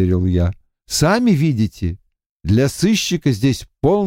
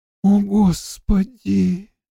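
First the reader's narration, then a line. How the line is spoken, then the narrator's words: Sighing. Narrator (Russian): вздохнула Сью Дондеро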